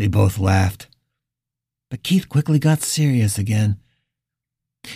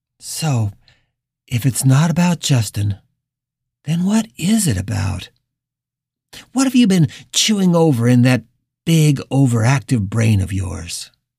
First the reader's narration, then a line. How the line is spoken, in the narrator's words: Richard sighed